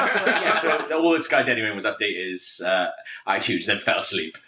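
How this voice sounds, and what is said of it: Usual voice. Nothing is said of it.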